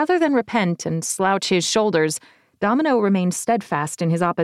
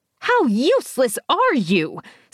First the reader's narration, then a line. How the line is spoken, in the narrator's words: Sybil screeched